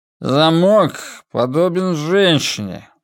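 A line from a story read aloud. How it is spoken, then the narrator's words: Inarticulate mumble. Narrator (Russian): нечленораздельно промямлил он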